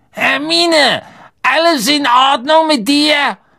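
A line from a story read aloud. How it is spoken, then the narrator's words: Calling through a door. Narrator (German): rief Harry durch die Tür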